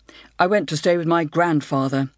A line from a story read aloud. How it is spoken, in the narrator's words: said